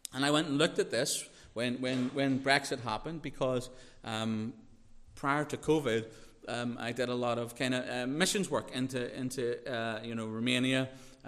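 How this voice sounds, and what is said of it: Northern Irish accent. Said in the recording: “I have a Northern Irish accent”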